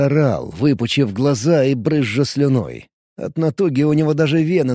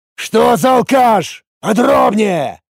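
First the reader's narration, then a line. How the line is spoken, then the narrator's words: Bark. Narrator (Russian): рявкнул Эд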